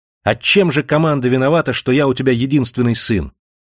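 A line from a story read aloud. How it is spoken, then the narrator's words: Shouting. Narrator (Russian): он крикнул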